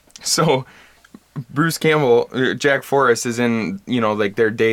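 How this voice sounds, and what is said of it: Usual voice. Nothing is said of it.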